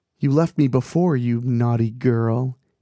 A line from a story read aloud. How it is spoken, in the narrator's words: Annie purred